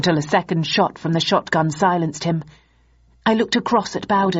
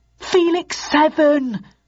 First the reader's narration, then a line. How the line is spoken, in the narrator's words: cried Archer desperately